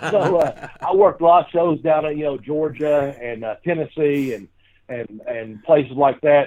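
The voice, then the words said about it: Southern American accent. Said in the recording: “I have a Southern accent.”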